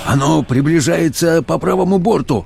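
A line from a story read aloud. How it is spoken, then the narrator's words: Exclaimed. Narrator (Russian): воскликнул помощник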